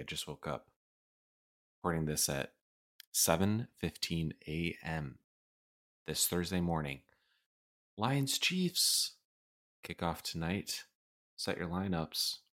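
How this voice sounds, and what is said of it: Groggy, just-woke-up voice. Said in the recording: “I sound a little groggy.”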